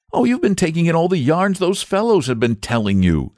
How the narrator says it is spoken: said the boy impatiently

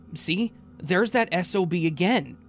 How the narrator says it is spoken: angrily said

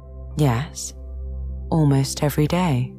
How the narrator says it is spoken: Elizabeth answered

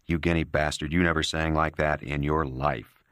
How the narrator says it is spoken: Johnny would say to him scornfully

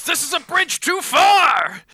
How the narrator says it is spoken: Freight Train yells

